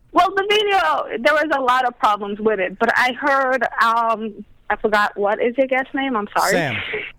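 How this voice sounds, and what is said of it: Mixed British and Brooklyn accent. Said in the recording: “She sounds British ... a little mix of an accent ... She's British Brooklyn ... Brooklish”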